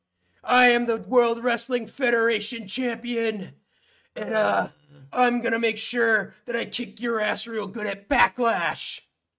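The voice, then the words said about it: Higher-pitched gruff wrestler impression. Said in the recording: “his voice is, it's just a little bit higher ... It's just a little bit higher, but it's definitely still got that gruff in it ... I think it's a pretty good impression.”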